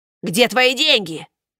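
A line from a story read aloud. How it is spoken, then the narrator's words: Growling. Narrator (Russian): рычал высокий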